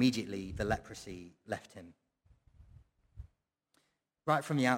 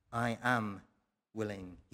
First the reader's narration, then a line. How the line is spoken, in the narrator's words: he said